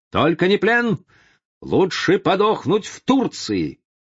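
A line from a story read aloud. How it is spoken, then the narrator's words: Shouting. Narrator (Russian): Он кричал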